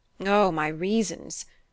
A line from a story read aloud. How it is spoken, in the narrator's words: groaned Durham